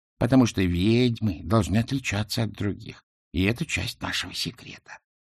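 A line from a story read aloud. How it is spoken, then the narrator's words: Plain. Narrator (Russian): ответила матушка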